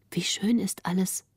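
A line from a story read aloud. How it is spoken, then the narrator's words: Soft, quiet. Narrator (German): sprach Greta leise, um den Grafen nicht zu stören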